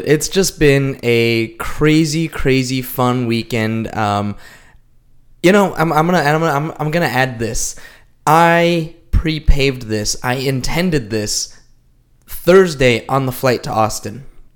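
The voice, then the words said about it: Weak, partly lost voice. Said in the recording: “lost my voice. ... you can kind of tell a little bit.”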